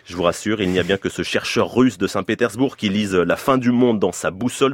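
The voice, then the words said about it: French speech with put-on Russian accent. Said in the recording (French): “Et un bel accent russe, Tovalitch ... vous avez un très bel accent.”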